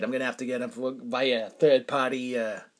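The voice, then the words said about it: Imitated New England accent. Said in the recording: “Pardon me for my New England accent, but that's how he sounded.”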